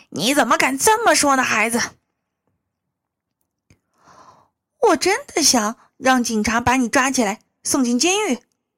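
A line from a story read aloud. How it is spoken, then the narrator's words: Alarmed cry. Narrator (Chinese): 布林惊叫着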